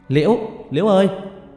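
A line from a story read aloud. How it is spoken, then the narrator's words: Shouted. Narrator (Vietnamese): Lần thứ 4 tôi hét lên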